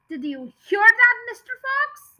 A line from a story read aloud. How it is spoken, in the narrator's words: yelled Bean, shouting down the hall